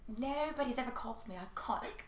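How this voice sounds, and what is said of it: Put-on British accent. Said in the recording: “She's British, by the way... that accent was everything... I was transported to a different country, at least.”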